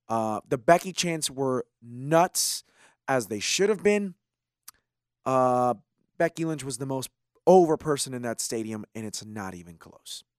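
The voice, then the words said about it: Strained, partly lost voice. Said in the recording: “I lost my voice at one point, basically... you can tell that my voice is a little bit strained tonight. It's because I was screaming like a crazy person”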